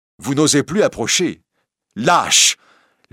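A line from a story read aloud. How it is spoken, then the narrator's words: Shout. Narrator (French): crie-t-elle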